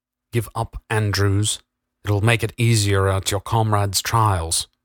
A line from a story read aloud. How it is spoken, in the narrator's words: said the Queensman